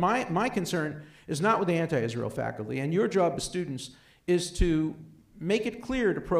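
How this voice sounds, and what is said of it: Usual voice. Nothing is said of it.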